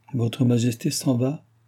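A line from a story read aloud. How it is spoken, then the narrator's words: Exclaimed. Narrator (French): s'écria la comtesse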